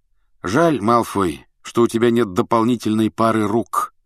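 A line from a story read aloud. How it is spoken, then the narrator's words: Plain. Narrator (Russian): сказал Гарри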